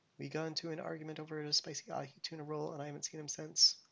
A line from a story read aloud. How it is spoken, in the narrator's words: I mumbled, inaudibly